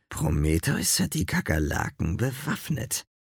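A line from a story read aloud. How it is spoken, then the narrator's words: Growled. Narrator (German): knurrte Zeus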